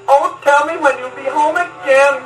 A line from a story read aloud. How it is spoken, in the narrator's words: cried the fair young maiden